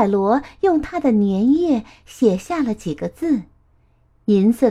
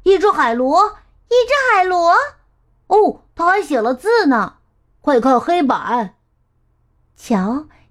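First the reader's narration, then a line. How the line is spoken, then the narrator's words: Children's amazed shouts. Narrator (Chinese): 孩子们惊奇的喊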